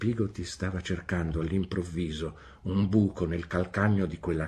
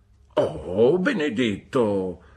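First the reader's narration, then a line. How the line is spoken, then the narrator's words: Exclaimed. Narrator (Italian): esclamò Peggotty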